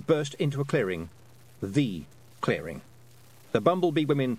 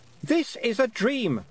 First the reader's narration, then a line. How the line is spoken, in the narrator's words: Roland shouted, but it was louder now because he was catching her up